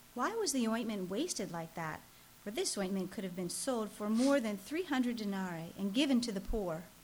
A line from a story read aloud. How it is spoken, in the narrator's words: some who said to themselves indignantly